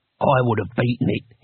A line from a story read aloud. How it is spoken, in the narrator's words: he said quietly